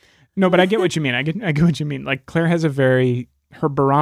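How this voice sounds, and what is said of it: Usual voice. Nothing is said of it.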